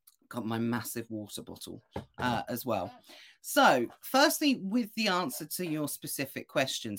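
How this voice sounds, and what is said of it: Hoarse, strained, fading voice. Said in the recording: “if you can hear my voice is going ... Otherwise, I don't think my voice is going to be left by the end of today”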